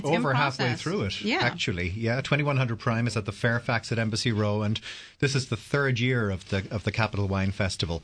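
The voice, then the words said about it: Boston accent. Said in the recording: “You have a real Boston accent. ... you have a real Boston accent. You do.”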